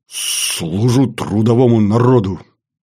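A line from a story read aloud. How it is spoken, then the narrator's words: Breathed out. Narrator (Russian): выдохнул Баранов-младший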